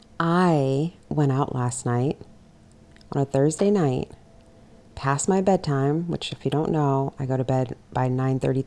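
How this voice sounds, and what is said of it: Voice deeper than usual. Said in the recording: “I can absolutely feel and sense and hear in my own voice that I'm a couple, is it octaves? ... I can hear that my voice is a couple octaves lower than what it usually is.”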